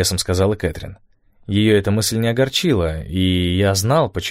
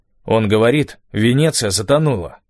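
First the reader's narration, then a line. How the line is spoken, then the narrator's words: Cold. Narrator (Russian): холодно произнес Стив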